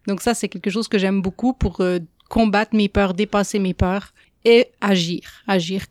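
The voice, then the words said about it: French accent from France. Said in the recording (French): “mon accent l'a déjà trahi, mais je ne viens pas d'ici ... J'ai grandi en France.”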